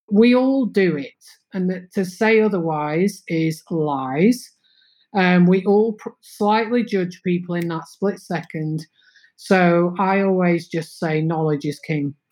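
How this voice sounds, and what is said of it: Northern English accent. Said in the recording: “I have a Northern English accent.”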